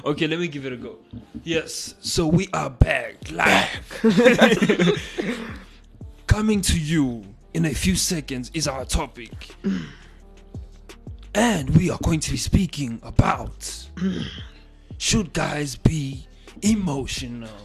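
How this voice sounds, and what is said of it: Mock radio presenter voice. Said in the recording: “put on my presenter voice”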